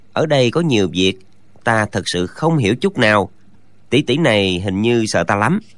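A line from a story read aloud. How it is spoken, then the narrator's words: Muttering. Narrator (Vietnamese): chàng lẩm bẩm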